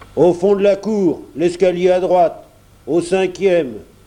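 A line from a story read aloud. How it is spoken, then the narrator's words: Grumbling porter. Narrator (French): grommela le portier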